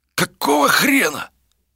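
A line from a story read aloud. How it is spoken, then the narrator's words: Hissed. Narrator (Russian): прошипел кто-то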